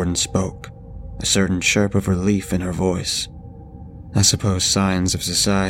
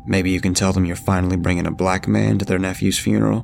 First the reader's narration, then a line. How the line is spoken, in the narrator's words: asked in a scalding tone